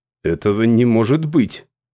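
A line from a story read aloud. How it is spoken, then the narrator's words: Plain. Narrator (Russian): сказал Дерек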